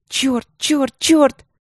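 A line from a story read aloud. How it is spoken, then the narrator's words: Hissing cursing. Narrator (Russian): Я так шипела и ругалась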